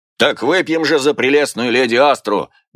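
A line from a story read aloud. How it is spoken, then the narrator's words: Loud bark. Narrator (Russian): гаркнул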